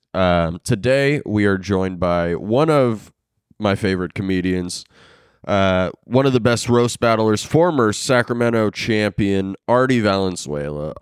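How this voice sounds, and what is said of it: Slightly sick-sounding voice. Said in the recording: “my voice sounds a little different on the mic today, it's because I'm a little sick under the weather”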